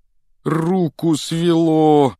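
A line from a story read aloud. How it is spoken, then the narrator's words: Moaning. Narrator (Russian): простонал он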